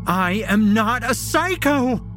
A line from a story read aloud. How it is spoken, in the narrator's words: she screams